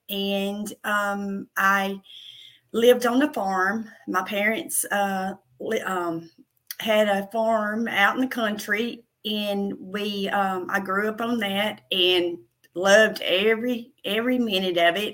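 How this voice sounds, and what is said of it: Southern country American accent. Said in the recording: “You can probably tell by my country accent, my Southern accent.”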